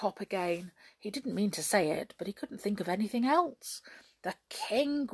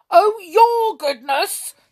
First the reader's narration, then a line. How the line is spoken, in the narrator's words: suddenly roared the king in a temper